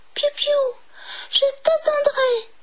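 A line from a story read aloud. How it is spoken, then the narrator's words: Exclaimed. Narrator (French): s'écria Maurice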